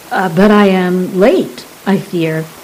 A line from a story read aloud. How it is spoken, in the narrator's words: Saran said